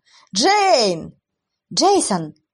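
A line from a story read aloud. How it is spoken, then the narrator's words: Breathless shout. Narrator (Russian): еле успевая за парнем, прокричала Кая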